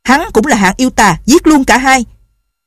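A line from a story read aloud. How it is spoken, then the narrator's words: Shouting. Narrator (Vietnamese): Tân Quốc Lương quát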